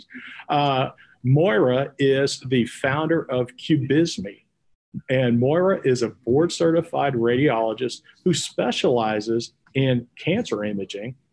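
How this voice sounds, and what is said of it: Texas accent. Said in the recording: “my Texas accent takes over a lot”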